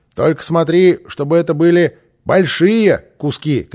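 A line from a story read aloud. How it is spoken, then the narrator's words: Shouted. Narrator (Russian): крикнул Босса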